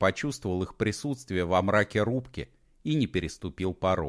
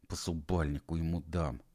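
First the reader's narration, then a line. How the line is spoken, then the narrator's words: Barely audible hiss. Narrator (Russian): едва слышно прошипел Серега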